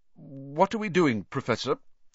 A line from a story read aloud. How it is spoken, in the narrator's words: said Ron, nervously suppressing a burp